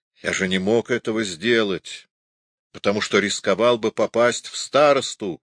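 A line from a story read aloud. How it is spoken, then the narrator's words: Plain. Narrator (Russian): ответил Лустенвюллер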